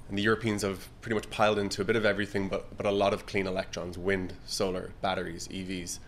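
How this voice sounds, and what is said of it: Irish accent. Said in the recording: “You've got your Irish accent.”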